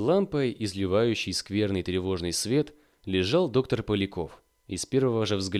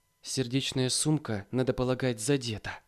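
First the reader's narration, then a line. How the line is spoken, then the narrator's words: Whispered. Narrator (Russian): шепнула Марья Власьевна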